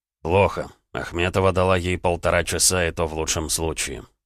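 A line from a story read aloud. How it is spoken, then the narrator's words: Calm. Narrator (Russian): спокойно ответил Гаранин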